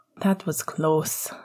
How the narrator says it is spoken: Sirius sighed

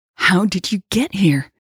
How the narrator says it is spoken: she gasped

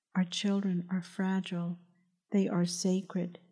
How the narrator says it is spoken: he said in a gentle, encouraging voice

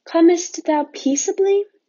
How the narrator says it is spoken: they asked anxiously

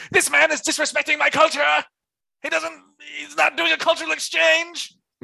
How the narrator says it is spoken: This obnoxious Tim is shouting to the guests

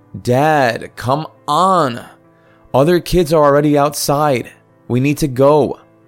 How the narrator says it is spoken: I yelled

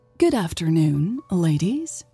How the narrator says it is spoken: Elle said smoothly

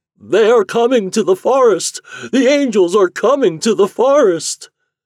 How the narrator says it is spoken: the cedars cried out

